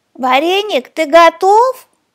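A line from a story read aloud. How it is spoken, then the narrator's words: Shout. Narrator (Russian): крикнул пряник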